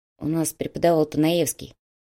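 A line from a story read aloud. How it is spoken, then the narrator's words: Quiet reply. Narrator (Russian): негромко ответил Илья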